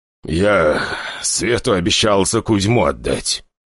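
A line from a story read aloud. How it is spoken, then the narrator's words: Steeled, through gritted teeth. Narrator (Russian): собравшись с духом, но сквозь зубы ответил Николай Григорьевич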